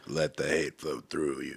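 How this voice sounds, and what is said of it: Raspy Star Wars Emperor voice. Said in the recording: “you kind of sound like the Emperor from Star Wars”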